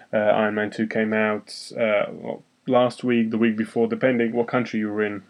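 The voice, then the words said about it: English accent. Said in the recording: “If you could guess by my accent, I'm in England”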